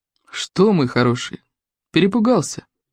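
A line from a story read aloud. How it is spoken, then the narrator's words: Gentle question. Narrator (Russian): ласково спросил его сокол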